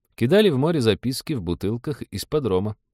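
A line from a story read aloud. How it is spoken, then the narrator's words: Sad joking. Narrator (Russian): грустно пошутил доктор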